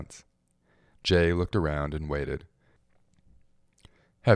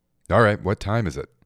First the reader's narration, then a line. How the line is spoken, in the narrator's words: he asked